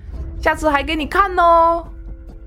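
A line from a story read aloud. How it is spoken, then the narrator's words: Smug gloating shout. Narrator (Chinese): 阿英哥……还洋洋得意地冲着春娇的背影喊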